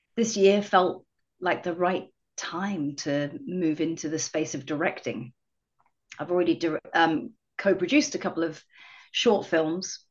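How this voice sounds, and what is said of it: English accent. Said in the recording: “You have an accent. ... originally from England.”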